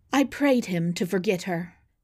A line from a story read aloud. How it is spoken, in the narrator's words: she said